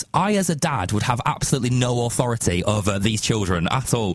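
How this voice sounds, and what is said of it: Northern English accent, Lancashire. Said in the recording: “my northern accent ... in Lancashire”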